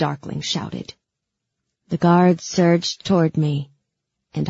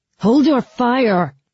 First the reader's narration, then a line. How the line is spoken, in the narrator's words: the darkling shouting over the chaos of the skiff